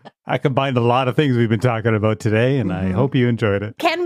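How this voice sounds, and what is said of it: Usual voice. Nothing is said of it.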